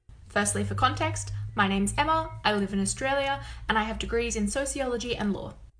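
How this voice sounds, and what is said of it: Australian accent. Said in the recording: “I can tell by your accent, you're not from the United States”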